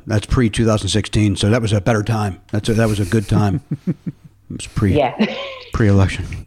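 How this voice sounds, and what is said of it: Sincere but sounds sarcastic. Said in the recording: “as if you were being sarcastic, but it was actually sincere ... people thought I was being sarcastic”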